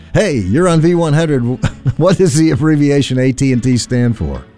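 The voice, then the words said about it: Radio disc jockey voice. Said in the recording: “hey, I sound like a disc jockey, don't I?”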